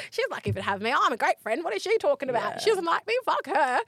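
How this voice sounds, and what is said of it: Put-on Australian accent. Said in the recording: “In my Aussie accent.”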